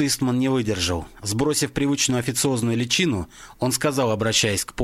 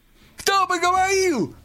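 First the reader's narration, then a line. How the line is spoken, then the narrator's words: Shriek. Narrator (Russian): взвизгнул Клейн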